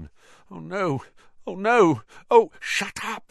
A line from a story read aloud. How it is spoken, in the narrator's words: said Harry frantically